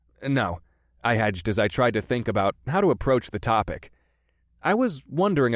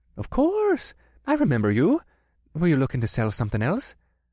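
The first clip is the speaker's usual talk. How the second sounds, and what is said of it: Thick Irish brogue, friendly tone. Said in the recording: “answered in his thick Irish brogue ... the businessman replied in a friendly tone”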